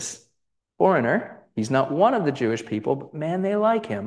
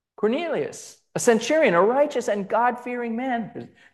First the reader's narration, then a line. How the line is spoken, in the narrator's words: they shout out